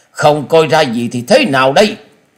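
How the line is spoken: Angry snort. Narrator (Vietnamese): Tứ độc thư sinh trên mặt tất cả đều biến sắc, tức giận hừ lên một tiếng

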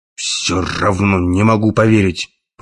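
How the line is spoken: Grumbled. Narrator (Russian): пробурчал Керк

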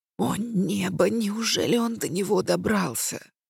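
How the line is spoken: Stepmother hissing. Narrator (Russian): прошипела мачеха

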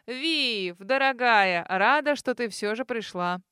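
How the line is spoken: Loud friendly greeting. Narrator (Russian): Громко поздоровалась она, приветливо улыбнувшись

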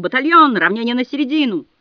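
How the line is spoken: Shouted command. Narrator (Russian): выкрикнул

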